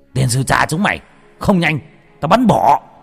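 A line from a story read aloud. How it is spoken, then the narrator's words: Grandfather's furious yell. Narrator (Vietnamese): ông nội thét lên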